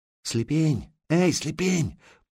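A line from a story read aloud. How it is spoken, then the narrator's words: Quiet call from afar. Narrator (Russian): позвали негромко с той стороны оврага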